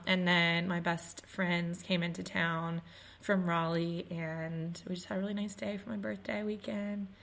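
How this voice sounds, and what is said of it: Hoarse, partly lost voice. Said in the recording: “the tipping point was for me losing my voice”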